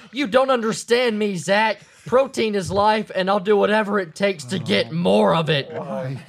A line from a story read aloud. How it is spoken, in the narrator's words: still in a rage, yelled